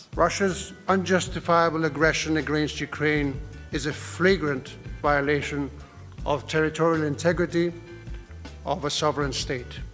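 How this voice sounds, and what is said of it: Weird, forced, tight accent. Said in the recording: “King Felipe has got a weird accent, though... It's kind of very sort of very forced and very tight”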